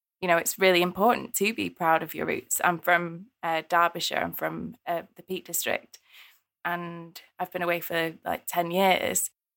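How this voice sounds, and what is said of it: Mixed, slightly Northern English accent. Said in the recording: “my accent, I think my accent's really weird now ... it's kind of shifted back to being a bit more Northern”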